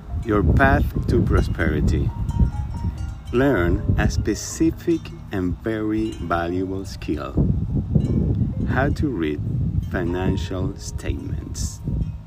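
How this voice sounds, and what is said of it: Spanish-accented English. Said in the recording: “you never have heard his codes in Spanglish accent.”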